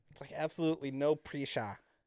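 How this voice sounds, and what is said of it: Failed South African accent, sounds Australian. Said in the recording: “And that's more Australian, I think. ... You do not have your South African accent down.”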